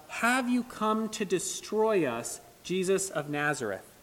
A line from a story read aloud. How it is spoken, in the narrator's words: He was agonizing in the presence of Jesus, and he cries out